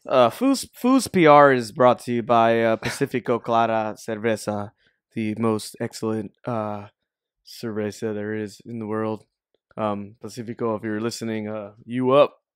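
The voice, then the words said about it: Announcer-style radio voice. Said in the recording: “Give me your best radio, like radio voice ... Very clear voice.”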